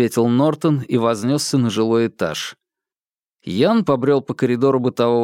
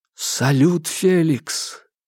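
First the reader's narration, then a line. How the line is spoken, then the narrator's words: Tragic whisper. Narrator (Russian): трагическим шепотом произнес Ян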